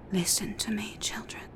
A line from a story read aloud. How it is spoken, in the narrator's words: said the snow woman in a soft, ghostly voice